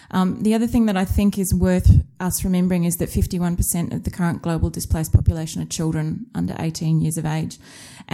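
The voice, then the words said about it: Australian accent. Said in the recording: “You may be able to tell from my accent that I'm an Australian by birth.”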